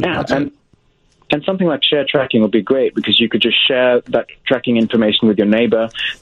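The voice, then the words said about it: English accent. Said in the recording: “I've noticed an accent. ... I'm from England.”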